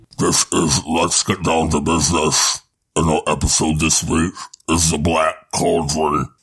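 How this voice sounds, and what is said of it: Villain character voice impression. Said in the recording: “Is that your impersonation of the Horned King?”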